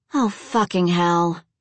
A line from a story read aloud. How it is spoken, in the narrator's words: she groaned